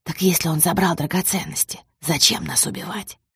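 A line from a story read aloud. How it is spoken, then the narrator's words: Whispered question. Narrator (Russian): шепотом спросила Лена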